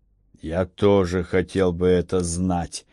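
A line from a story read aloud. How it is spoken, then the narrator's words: Muttering. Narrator (Russian): буркнул комиссар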